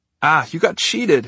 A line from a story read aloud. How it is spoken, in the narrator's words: Harry exclaimed